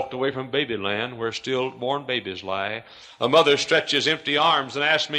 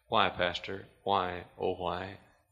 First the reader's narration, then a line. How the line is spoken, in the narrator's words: a gold star mother weep ... softly ask